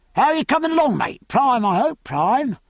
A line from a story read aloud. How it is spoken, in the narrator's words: he called out